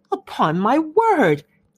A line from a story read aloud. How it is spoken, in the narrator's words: cried Elizabeth